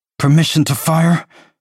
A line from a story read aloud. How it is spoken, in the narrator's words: She asks through her teeth